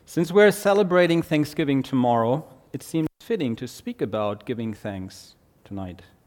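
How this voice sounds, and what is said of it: German accent. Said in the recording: “you'll have to endure my German accent”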